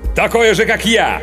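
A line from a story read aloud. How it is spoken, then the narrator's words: Sudden startling bark. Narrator (Russian): Внезапно гаркнул агент так, что оба, и Бирс, и инспектор подскочили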